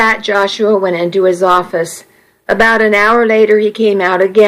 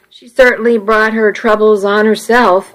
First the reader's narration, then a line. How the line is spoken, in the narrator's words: I said